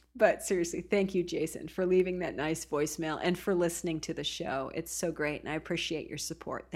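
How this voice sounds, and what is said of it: Usual voice. Nothing is said of it.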